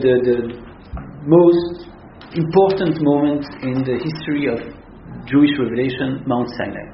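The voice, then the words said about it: Non-native English accent. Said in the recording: “my very poor English accent”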